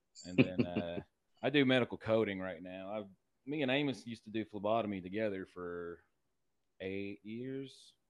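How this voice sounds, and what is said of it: Regional Kentucky accent. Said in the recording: “I've grown and lived in Lexington all my life. I used to spend a lot of time in Paris. My grandpa had a farm out there. So that's kind of where I got my accent from.”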